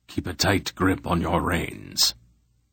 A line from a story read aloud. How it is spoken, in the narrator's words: Belgrath instructed quietly